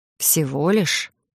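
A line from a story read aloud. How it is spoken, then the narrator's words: Quiet snort under breath. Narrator (Russian): Я тихо хмыкнула себе под нос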